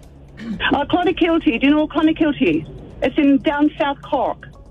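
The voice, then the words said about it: Irish accent. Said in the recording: “you do a great Irish accent ... Do you think she's putting on an accent?”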